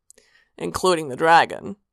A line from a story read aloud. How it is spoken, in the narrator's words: Sanguine said dryly